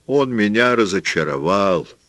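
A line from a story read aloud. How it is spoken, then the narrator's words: Sad. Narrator (Russian): печально сказал Пабло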